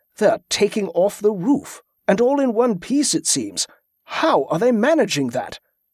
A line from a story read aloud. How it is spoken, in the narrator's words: exclaimed